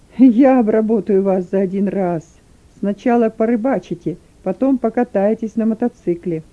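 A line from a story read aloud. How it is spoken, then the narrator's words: Malicious laugh, then speech. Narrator (Russian): Охранник злобно засмеялся и сказал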